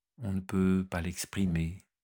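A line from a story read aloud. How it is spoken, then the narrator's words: Sigh. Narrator (French): soupira Hiéronyme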